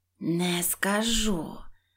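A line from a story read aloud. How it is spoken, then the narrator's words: Menacing witch hiss. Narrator (Ukrainian): зашипіла відьма, грізно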